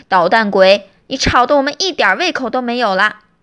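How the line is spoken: Loud exasperated scolding. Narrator (Chinese): 爸爸妈妈受不了了，就大声的训斥他

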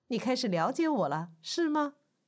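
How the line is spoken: Loud. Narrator (Chinese): 宾类对他大声说道

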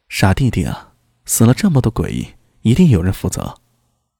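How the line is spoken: Soft. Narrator (Chinese): 明空轻声道

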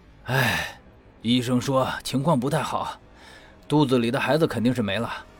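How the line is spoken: Regretful sigh. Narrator (Chinese): 魏正义惋惜的叹了口气

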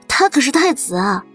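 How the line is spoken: Bursting into laughter. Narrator (Chinese): 苏黎扑哧笑出声

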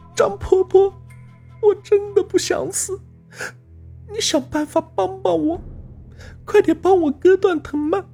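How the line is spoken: Crying. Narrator (Chinese): 她哭着说

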